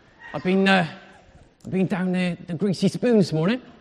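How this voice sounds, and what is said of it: Put-on West Country accent. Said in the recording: “I've got the wrong accent... it's made me speak like Phil of EastEnders. But with a West Country accent.”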